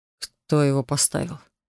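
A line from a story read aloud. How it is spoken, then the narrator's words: Breathless. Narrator (Russian): выдохнул Делиан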